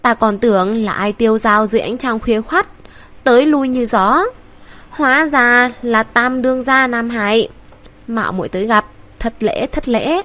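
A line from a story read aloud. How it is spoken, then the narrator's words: Beaming, cheerful. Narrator (Vietnamese): Hắn cười như nở hoa, vui tươi hớn hở nói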